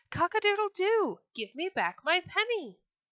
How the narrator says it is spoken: once again he cried

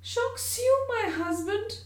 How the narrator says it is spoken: cried Georgina, deeply hurt, at first reddening with momentary anger, but then bursting into tears

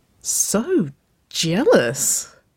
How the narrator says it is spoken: Waverley chuckled

